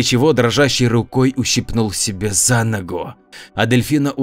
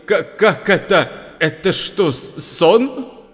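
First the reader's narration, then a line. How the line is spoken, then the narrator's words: Stammering. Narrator (Russian): Костя, заикаясь, проговорил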